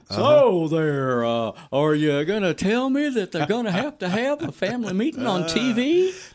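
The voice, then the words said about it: Put-on Texas accent. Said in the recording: “Let me do this in my best Texas accent.”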